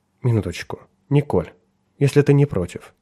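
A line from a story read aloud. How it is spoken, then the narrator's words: Gentle interruption. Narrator (Russian): мягко прервал ее Ричард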